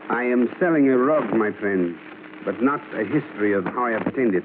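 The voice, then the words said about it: Put-on international accent. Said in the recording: “I put on my best international accent”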